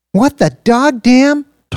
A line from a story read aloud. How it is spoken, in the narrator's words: Tara shouted